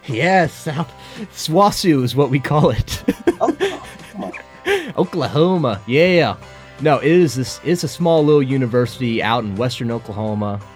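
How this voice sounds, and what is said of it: Strong Southern American accent. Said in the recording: “that is some southern accent you got”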